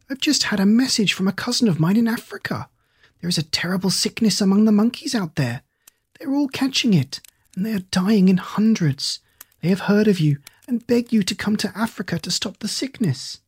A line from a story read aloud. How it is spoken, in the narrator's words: he cried